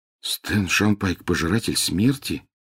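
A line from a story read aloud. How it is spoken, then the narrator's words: Muttering. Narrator (Russian): пробормотал Гарри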